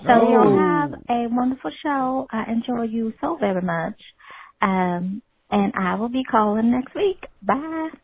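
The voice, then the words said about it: Southern American accent. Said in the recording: “That accent. ... It's a southern.”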